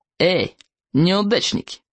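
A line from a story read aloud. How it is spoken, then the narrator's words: Snide mean call. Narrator (Russian): ехидно окликнул Смаркала, высокий злобный уволень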